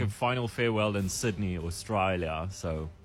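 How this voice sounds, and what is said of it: Bad put-on Australian accent. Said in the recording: “Terrible Australian accent.”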